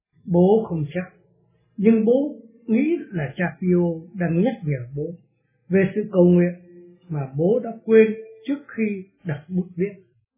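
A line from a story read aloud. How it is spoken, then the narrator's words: Smiling. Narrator (Vietnamese): Ông Del Fenty mỉm cười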